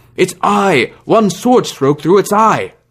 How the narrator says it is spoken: Adula shouted

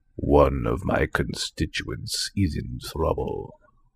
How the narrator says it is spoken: in a hollow voice said

